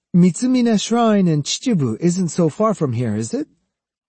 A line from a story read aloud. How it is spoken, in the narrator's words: he said brightly